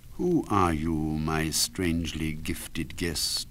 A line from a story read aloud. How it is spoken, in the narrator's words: he said